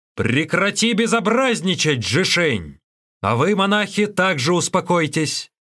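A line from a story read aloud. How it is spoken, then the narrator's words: Commanding shout. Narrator (Russian): внезапно появился игумен и повелительно крикнул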